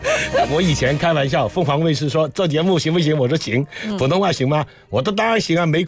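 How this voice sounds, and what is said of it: Mandarin with Cantonese accent. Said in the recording (Chinese): “粤语的普通话 ... 我的普通话不标准的 ... 这才有广东特色嘛 ... 这个口音打的水印”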